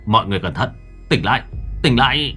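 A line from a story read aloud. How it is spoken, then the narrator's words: Shouted. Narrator (Vietnamese): anh quát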